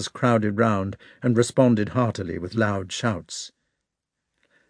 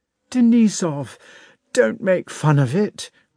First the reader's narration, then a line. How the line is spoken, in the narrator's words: cried Rostov